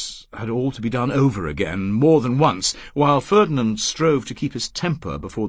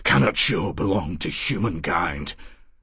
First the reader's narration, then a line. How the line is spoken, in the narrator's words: he said huskily and too quickly